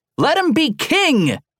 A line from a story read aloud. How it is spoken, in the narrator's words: they screamed